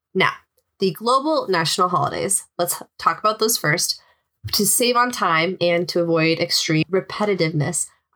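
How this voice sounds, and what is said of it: Hoarse voice from a cold. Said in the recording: “I'm really hoping my voice doesn't give out... I am suffering from a cold... today my voice went out”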